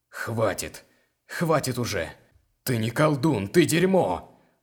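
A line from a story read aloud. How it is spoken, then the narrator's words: Man roaring. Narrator (Russian): Взревел мужчина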